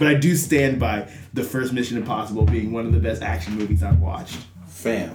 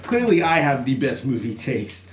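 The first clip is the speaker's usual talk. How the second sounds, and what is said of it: Sarcastic delivery. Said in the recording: “I say that very sarcastically,”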